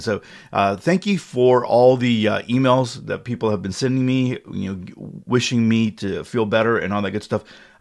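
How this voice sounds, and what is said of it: Slightly froggy, hoarse voice. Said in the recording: “my voice is a little froggy this morning ... my throat is a little foggy. Still have a little bit of a cough”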